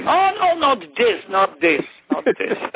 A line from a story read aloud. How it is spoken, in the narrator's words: Dima started to scream